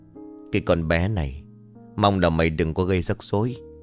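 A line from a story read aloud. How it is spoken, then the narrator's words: Sighing mutter. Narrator (Vietnamese): Ông Vương thở dài một hơi rồi miệng lẩm bẩm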